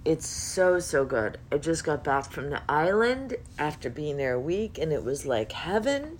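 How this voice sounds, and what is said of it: Hoarse, partly lost voice. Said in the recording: “I've lost my voice a little bit”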